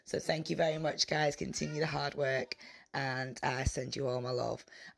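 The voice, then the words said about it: Croaky, rough hoarse voice. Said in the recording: “my voice is so croaky, it's because I've just spent the last 3 nights in a pantomime shouting at people ... my voice is a little bit rough at the moment”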